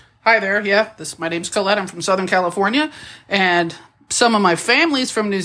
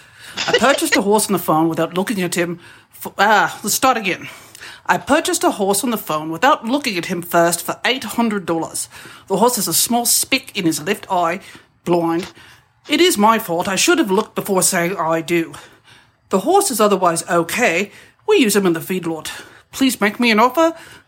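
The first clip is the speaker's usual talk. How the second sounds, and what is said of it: Put-on New Zealand accent. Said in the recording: “she said that she can do a New Zealand accent ... I'll try reading this ad as best I can in a New Zealand accent as I remember it”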